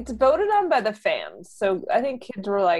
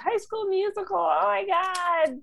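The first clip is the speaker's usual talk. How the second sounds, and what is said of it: Excited imitation of young fans. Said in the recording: “a good impression of the kids”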